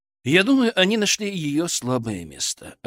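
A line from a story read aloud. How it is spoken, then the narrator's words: Calm reply. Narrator (Russian): ответил спокойно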